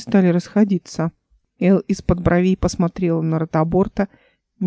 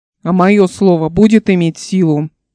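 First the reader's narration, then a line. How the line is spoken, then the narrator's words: Very loud shout. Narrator (Russian): Он крикнул так громко, что люди отшатнулись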